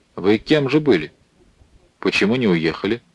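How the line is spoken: Stern old man's question. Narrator (Russian): старик строго спросил

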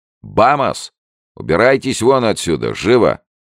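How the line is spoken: Young man barking loudly. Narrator (Russian): высокий молодой человек гаркнул

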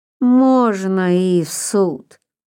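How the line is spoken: Lazy agreement. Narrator (Russian): лениво согласился приезжий

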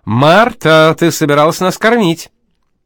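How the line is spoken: Impatient shout. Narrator (Russian): у Вити терпение закончилось, и он закричал

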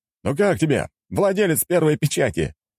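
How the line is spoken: Shouted from behind a door. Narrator (Russian): крикнул он из-за двери

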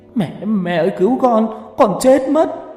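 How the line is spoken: Running, wailing scream. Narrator (Vietnamese): Có thằng vừa chạy vừa khóc thét

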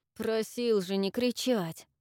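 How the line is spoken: Muffled. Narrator (Russian): Глухо произнес Авис

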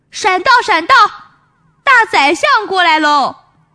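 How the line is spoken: Loud shout. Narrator (Chinese): 有人大声喊

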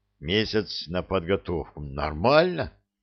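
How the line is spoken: Thoughtful farmer's voice. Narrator (Russian): Фермер задумчиво произнес

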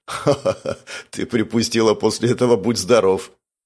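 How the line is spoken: Laughing. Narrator (Russian): Павел засмеялся

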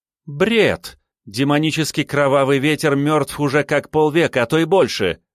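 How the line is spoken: Exclaiming. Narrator (Russian): воскликнула Юн Ли

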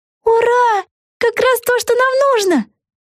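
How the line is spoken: Joyful exclamation. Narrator (Russian): воскликнула Вега

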